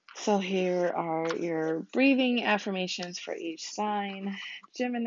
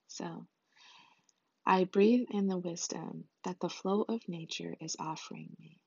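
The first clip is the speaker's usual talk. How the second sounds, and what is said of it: Calm meditative voice. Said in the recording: “in my meditative voice,”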